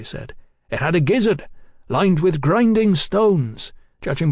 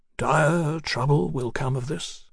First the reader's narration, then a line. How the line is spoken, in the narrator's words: Huxley murmured